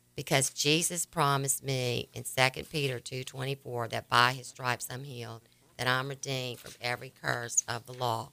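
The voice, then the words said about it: Raspy voice. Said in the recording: “normally raspy like this ... my voice that sounds like this ... making my voice raspy like this”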